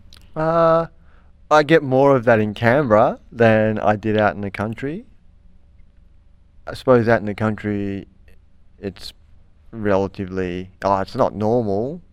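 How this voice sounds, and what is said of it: Strong broad Australian accent. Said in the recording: “you speak in a very, you know, ochre accent ... having a strong Australian accent”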